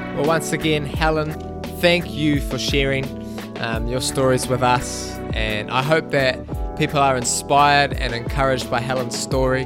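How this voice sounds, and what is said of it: New Zealand accent. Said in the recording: “it's always nice to hear a Kiwi accent”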